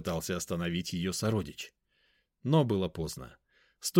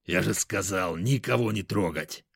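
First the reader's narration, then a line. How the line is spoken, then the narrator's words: Snarl. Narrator (Russian): рыкнул он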